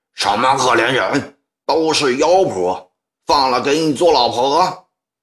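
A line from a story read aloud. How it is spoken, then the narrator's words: Angry roar. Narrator (Chinese): 一个满脸横肉的中年人 吼道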